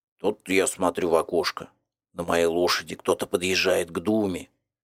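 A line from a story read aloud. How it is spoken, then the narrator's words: Good-natured bass. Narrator (Russian): добродушно басил Луковкин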